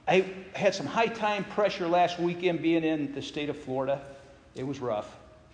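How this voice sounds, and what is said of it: Sarcastic delivery. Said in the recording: “I say that sarcastically.”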